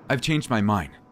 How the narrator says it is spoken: I said as firmly as I could, despite the dread in my chest

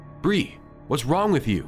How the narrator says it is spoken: I shouted, afraid of moving her

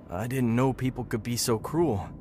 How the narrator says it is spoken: said, his voice trembling

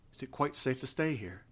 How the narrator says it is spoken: said Althea nervously

